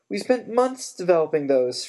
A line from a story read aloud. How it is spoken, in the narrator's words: Fred shouted at his mother